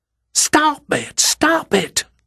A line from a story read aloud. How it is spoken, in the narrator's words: woman hissed